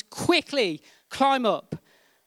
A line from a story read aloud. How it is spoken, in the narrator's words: Another man in the helicopter shouted